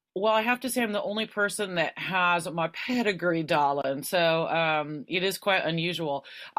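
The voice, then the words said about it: Californian American accent. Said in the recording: “this is in California, as you can probably tell by my accent.”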